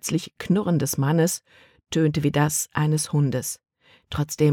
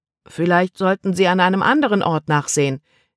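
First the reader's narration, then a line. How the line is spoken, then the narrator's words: Calling down. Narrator (German): rief er hinunter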